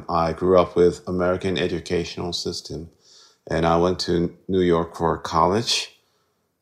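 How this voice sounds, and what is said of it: American-sounding English accent. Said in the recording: “I may sound a little bit like perfect-ish ... I had an American teacher all the time ... that's where I picked up this kind of accent”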